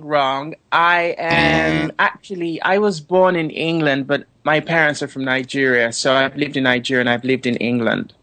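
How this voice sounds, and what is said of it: English accent with another undertone. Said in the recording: “I love your accent. I think it's fabulous. ... Now you're English, but I can hear another something underneath the English.”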